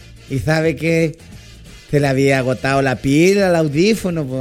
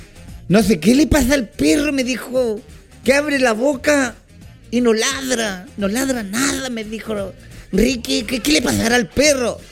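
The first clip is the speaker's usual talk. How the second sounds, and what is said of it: Old grandfather's voice. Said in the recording (Spanish): “me dijo con su voz de abuelito”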